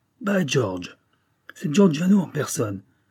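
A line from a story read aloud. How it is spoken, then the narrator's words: American detective exclaiming. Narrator (French): s'exclama le détective américain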